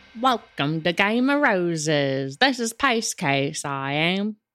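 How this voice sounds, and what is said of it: Put-on Australian-sounding accent. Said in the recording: “I thought I'd just throw that accent in there ... That's more of an Australian.”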